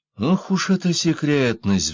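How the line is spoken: Sighing. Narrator (Russian): вздохнул я

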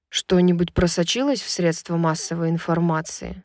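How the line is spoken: Plain. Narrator (Russian): спросил Хант

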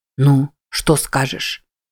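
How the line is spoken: Whisper. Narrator (Russian): прошептал Сипи

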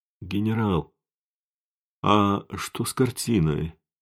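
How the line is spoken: Sleepy question. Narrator (Russian): сонным голосом спросила Флавия

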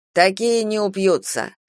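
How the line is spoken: Scoffing grunt. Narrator (Russian): хмыкнул Шушенков

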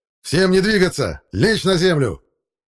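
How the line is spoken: Loud yell. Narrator (Russian): громко заорал командир

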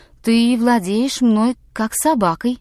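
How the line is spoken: Calm repetition. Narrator (Russian): спокойно повторила Эл-Су

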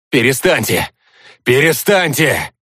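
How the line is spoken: Desperate shouting. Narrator (Russian): отчаянно кричал Стас

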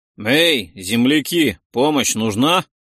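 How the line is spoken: Loud question. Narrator (Russian): громко спросил Ролдан

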